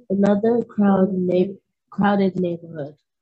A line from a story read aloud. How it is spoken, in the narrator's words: she grumbled